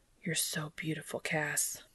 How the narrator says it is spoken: Dean whispers

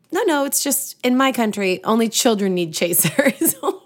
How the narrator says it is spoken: Stifling another giggle, she replied

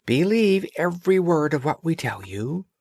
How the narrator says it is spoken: said the doves, and cooed

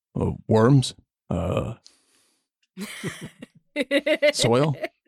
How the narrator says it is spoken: Second one, in a much deeper voice

